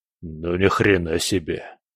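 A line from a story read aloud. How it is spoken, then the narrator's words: Stunned mutter. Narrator (Russian): пробормотал скала, ошарашенно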